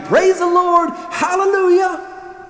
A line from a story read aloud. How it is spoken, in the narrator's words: shouting